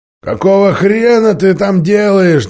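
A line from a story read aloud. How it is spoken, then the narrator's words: Displeased hoarse distant voice. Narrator (Russian): донесся из бронетранспортера недовольный хриплый голос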